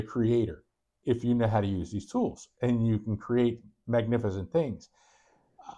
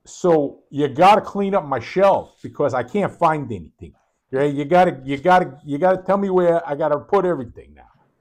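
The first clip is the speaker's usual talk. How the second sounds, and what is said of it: Put-on New England accent. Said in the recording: “this is New England, so you're getting the accent, hardcore warehouse manager”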